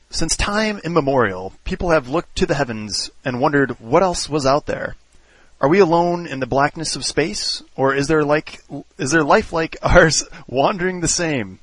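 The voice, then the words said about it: Carl Sagan impression. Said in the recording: “read it in my best Carl Sagan voice ... Carl Sagan voice on.”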